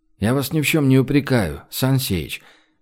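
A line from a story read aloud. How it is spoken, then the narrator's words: Gentle. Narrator (Russian): мягко сказал Гош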